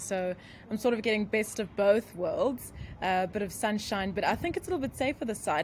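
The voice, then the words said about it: South African accent. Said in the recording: “clearly your accent is from South Africa”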